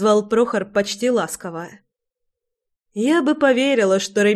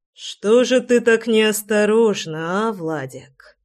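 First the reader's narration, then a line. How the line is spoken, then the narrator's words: Hissing in a strange voice. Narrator (Russian): Совершенно чужим голосом прошипел Рами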